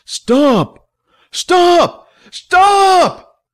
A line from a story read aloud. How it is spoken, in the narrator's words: Billy yelled